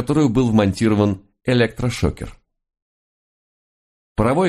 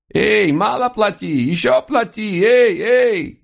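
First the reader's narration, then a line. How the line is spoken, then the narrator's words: Furious horse squealing loudly. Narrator (Russian): коня, который яростно визжал на всю улицу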